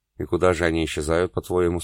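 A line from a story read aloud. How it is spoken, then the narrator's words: Plain. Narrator (Russian): спросила София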